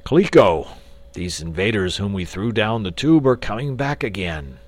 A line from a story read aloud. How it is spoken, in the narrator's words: exclaimed